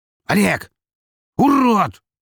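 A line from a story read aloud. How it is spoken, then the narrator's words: Shouting over sirens. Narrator (Russian): закричал он в унисон с орущими на улицах полицейскими сиренами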